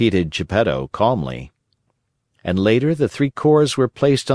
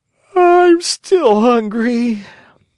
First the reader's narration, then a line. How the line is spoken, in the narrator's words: he yawned deeply and wailed